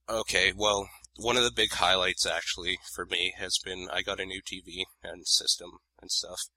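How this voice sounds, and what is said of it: Weird, shaky sick-sounding voice. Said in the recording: “I've been sick for a while, so I apologize that my voice sounds kind of weird and shaky”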